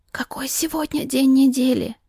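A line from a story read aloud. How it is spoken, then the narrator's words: Quiet whisper. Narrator (Russian): Шепнула тихо, чтобы гостья не услышала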